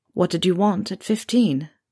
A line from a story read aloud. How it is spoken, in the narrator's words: He asked quietly